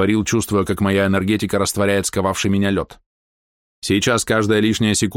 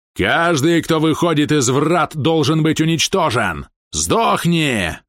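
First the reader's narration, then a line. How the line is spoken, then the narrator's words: Barking. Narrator (Russian): рявкнул он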